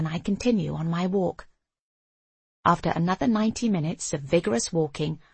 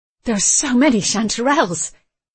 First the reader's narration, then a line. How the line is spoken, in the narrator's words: he says excitedly